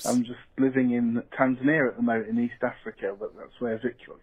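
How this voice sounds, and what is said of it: British accent. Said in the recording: “not from Australia or even Tasmania. I'm from the UK. This is a British accent.”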